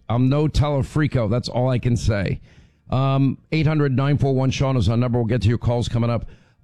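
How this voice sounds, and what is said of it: Hoarse, strained voice. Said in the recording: “I don't want to hear it about my laryngitis.”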